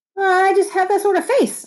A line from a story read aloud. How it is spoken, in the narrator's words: I blurted